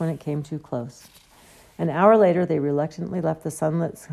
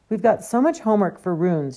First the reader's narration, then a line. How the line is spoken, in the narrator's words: she said anxiously